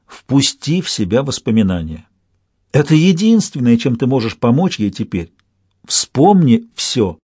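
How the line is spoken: Soft, into ear. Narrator (Russian): мягко сказал на ухо Ланту

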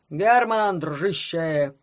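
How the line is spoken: Booming. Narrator (Russian): прогудел он

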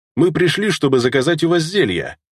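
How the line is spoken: Amused snort. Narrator (Russian): хмыкнул я в ответ на его неприветливый тон

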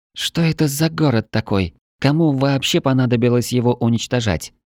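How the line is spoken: Muttered whisper. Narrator (Russian): пробурчала Мила, не поднимая голоса выше шепота

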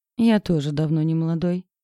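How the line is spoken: Snorted reply. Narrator (Russian): фыркнул парень в ответ

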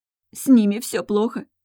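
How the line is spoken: Dejected voice. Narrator (Russian): упавшим голосом произнесла Эмбер

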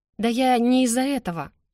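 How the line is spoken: Sighing. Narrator (Russian): я вздохнула

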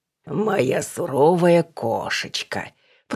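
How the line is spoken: Purring, playful. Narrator (Russian): промурлыкал Василий Иванович

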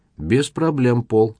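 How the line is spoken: Even voice. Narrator (Russian): ровным голосом произнес

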